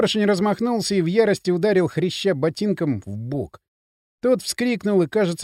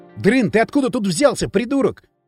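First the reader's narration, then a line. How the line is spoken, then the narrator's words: Losing-composure shout. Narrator (Russian): крикнул Кирилл, теряя самообладание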